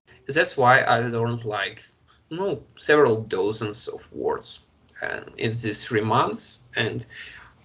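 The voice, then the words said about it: Russian accent. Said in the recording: “they hear your Russian accent probably, right?”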